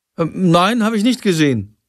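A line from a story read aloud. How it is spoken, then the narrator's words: Shouting from another room. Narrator (German): ruft Jendrik aus seinem Zimmer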